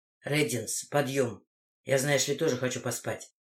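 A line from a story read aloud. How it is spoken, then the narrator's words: Whispered. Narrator (Russian): прошептал Коул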